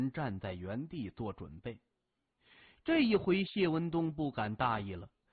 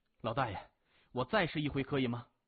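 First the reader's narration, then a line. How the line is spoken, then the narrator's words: Loud. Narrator (Chinese): 他大声说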